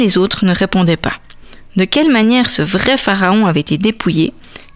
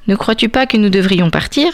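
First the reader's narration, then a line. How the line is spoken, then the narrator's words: Plain question. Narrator (French): demanda-t-il au chacal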